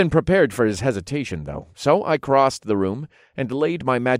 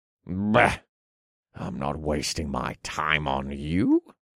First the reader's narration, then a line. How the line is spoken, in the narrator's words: he muttered